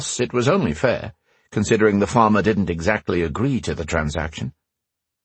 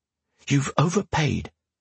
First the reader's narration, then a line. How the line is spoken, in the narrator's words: hissed